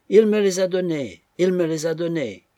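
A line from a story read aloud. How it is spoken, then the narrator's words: Screaming at full strength. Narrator (French): criait-elle de toutes ses forces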